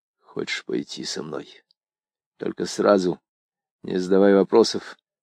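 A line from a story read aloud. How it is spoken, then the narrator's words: Muffled, hollow voice. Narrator (Russian): он глухо сказал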